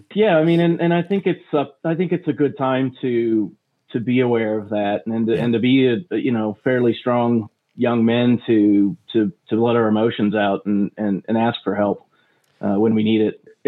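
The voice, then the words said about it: American accent. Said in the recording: “I love how you say that as an American. ... my American accent.”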